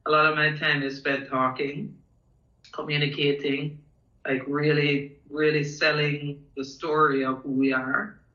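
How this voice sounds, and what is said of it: Hoarse, strained voice. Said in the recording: “losing my voice a bit”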